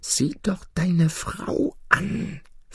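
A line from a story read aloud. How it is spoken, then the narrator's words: Whispering cat. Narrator (German): flüsterte die Katze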